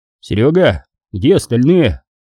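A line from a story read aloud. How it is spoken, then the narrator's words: Shouting. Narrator (Russian): крикнул я ему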